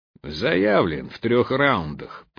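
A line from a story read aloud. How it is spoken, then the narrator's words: Telling, burly man. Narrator (Russian): поведал амбал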